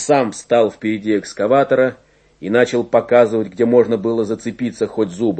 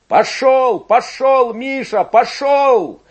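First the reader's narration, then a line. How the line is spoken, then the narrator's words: Shouting. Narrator (Russian): кричал Игорь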